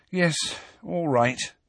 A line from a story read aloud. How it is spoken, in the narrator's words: said Hermione wearily